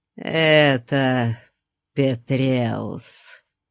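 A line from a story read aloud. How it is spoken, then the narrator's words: Hissing priest. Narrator (Russian): прошипел жрец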